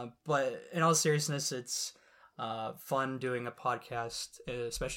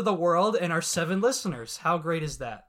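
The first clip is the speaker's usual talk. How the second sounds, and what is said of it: Sarcastic tone. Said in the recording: “I said that sarcastically.”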